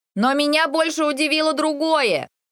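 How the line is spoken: Shouting over clattering. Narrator (Russian): Крикнула я так, чтобы мой голос был слышен за звоном противней

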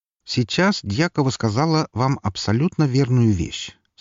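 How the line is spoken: Calm. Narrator (Russian): спокойно проговорил я

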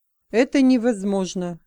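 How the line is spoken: Resolute voice. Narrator (Russian): решительным голосом сказал Эван

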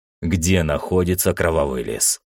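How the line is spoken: Dry question. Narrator (Russian): сухо спросил шахматист

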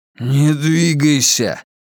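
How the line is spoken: Hoarse wheeze. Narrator (Russian): прохрипел Рауль

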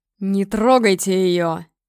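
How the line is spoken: Furious roar. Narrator (Russian): Гром взревел от ярости

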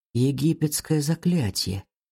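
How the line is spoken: Whisper. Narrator (Russian): прошептал Алекс

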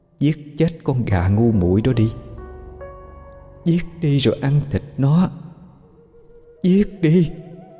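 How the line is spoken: Whisper in ear. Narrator (Vietnamese): Tiếng nói đó thì thầm bên tai bà

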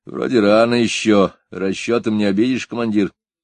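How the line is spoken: Lazy reply. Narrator (Russian): лениво ответил

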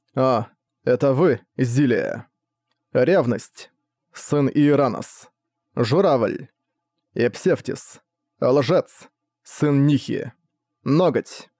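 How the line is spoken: Calm. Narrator (Russian): спокойно проговорил он

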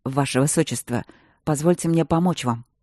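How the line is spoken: Hoarse voice. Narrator (Russian): осипшим голосом произнес Байдек

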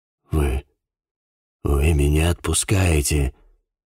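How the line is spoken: Tired, surprised whisper. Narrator (Russian): Устало и в то же время удивленно прошептал Прайс

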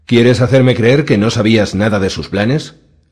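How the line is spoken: Snapped. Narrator (Spanish): le espetó

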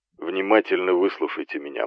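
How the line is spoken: Grim. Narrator (Russian): мрачно начал Кайл

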